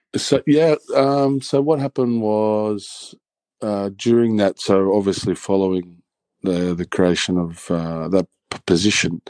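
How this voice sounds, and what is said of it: Australian accent. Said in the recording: “you have kept your Australian accent since as well”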